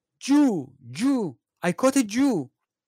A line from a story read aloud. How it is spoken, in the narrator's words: shouted